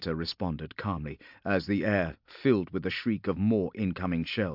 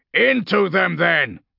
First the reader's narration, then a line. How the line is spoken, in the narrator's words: Castor snarled, feeling his battle fury surging to life once more